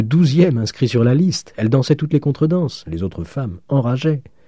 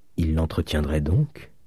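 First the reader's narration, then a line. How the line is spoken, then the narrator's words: Low voice. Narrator (French): dit à voix basse Mademoiselle Michonneau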